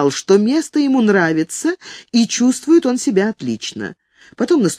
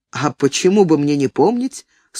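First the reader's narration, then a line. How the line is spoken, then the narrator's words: Dry reply. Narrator (Russian): сухо отозвался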